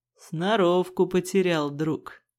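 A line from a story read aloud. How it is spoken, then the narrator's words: Skeptical grunt. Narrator (Russian): хмыкнул второй голос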